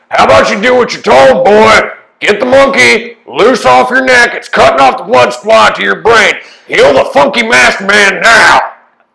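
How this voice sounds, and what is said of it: Yelling angrily. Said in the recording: “I'm yelling, I'm heating up. Like, it's just like, fire, boy!”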